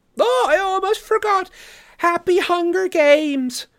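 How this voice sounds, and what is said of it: Maniacally upbeat Capitol accent, Effie Trinket. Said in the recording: “he falls into his capital accent as he mimics Effie Trinket, the maniacally upbeat woman”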